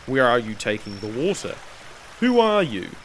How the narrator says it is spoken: Disguising her voice, she said in a deep tone

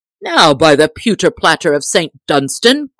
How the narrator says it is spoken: cried the tinker

